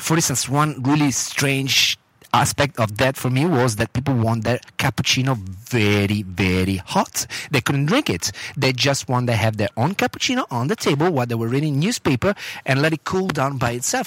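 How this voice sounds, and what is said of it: Italian accent with Australian touches. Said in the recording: “Y'all can hear the accent in there, too. ... Sometimes I got my Australian accent coming out. ... It's like, buongiorno, mate.”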